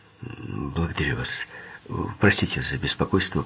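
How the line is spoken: Mumbling. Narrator (Russian): пробормотал он

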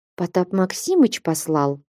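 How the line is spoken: Quiet reply. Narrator (Russian): тихо отвечал Алексей

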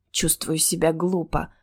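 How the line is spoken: Muttered. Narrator (Russian): пробормотала я

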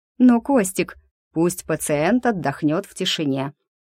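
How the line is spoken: Plain. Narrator (Russian): сказал Айболит

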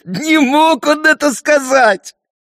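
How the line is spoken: Laughing. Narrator (Russian): Малыш хохотал

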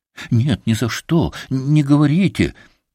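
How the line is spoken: Frightened cry. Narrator (Russian): испуганно вскрикнула Кать

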